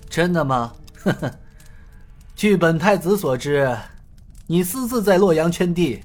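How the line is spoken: Sneering. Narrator (Chinese): 太子冷笑道

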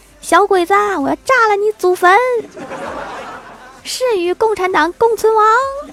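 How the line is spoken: Girl's sudden night shout. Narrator (Chinese): 一个小女生 大半夜的突然 喊了一句

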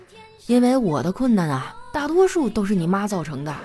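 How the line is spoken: Long weary sigh. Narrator (Chinese): 我哥呀长叹了一口气说

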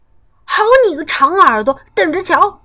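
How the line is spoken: Shouting. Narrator (Chinese): 跳跳叫道

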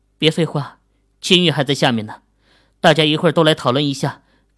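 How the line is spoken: Sighing exclamation. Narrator (Chinese): 莫永兴感叹道

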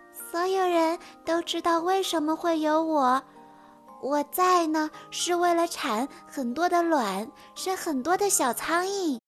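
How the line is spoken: Thin small voice. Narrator (Chinese): 苍蝇的声音细细的，他说

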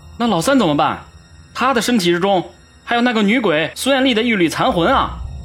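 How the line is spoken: Hurried shout. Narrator (Chinese): 马警官急忙吼道

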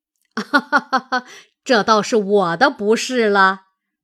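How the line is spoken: Laughing. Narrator (Chinese): 贾母笑道

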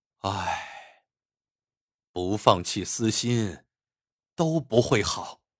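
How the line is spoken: Long sigh. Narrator (Chinese): 魏甄焕一声长叹

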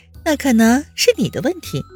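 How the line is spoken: With a laugh. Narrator (Chinese): 温之夏笑了一声，道

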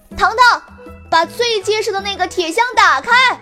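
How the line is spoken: Shouting. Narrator (Chinese): 美人蟹 冲糖糖大喊

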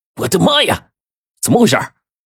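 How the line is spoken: Startled cry. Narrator (Chinese): 黄队惊叫了一声

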